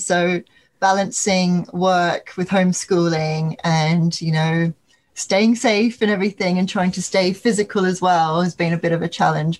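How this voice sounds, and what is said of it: British-sounding accent. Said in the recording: “it's terribly nice to hear another British accent ... you sound it ... you sound Brit”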